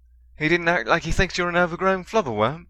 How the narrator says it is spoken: Ron exclaimed

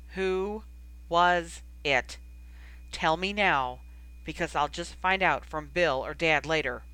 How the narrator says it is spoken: Feeling his face grow very red, he had repeated very firmly

